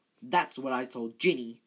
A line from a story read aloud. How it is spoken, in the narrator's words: said Percy fiercely